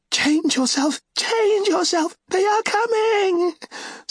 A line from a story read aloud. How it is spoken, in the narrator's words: Seret shrieked